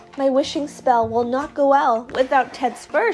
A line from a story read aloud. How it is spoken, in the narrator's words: she sighed